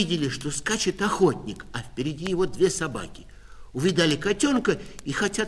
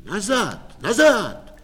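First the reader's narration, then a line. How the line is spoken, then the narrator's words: Loud shout. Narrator (Russian): кто-то громко кричит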